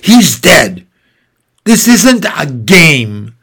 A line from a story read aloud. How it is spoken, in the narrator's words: Her face twisted up and she spat